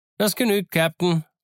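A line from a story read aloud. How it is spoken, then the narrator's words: Cheerful call. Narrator (German): rief Long John fröhlich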